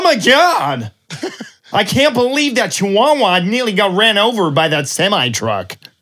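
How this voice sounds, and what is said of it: Loud exaggerated American accent. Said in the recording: “Americans are like, "Oh my God!" ... my really bad impression”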